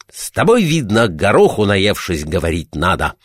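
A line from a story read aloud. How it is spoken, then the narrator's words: Shouting. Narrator (Russian): кричал он на карася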